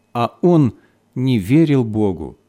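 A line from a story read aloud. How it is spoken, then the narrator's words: Sad. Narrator (Russian): Священник добавил печально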